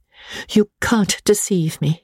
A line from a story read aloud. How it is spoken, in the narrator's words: he said